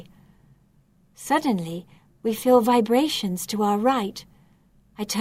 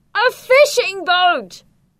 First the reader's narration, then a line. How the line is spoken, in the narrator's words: screams Vic